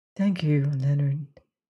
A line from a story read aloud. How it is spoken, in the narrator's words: she said gently